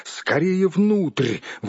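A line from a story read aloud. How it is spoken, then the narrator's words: Exclamation. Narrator (Russian): воскликнул хоббит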